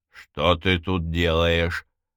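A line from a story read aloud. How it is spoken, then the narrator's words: Growling young man. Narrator (Russian): прорычал юноша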